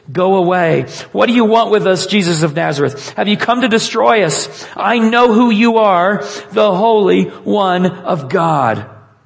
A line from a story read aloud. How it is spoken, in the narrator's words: he cried out at the top of his voice